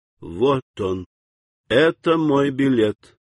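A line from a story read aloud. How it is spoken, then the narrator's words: Slow, desperate. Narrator (Russian): В отчаянии Вольф ... медленно сказал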